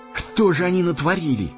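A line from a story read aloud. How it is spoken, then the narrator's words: Sorrowful exclamation. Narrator (Russian): горестно воскликнул Сэмми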